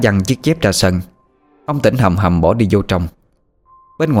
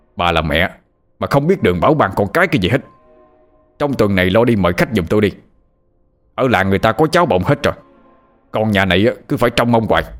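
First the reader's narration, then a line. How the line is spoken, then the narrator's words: Yelling man. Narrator (Vietnamese): ông quay sang vợ mà gào lên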